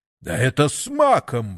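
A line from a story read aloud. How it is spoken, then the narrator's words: Exclaimed. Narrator (Russian): воскликнул сатана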